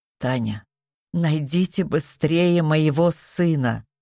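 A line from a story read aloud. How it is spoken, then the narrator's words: Pleading. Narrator (Russian): взмолилась она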